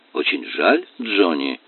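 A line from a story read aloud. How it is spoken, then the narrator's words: Gloomy professor. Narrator (Russian): сказал профессор, мрачно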